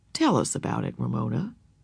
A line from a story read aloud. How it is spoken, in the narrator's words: he said calmly and quietly